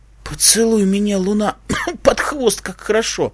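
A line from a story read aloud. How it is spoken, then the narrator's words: Hiss. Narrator (Russian): прошипела она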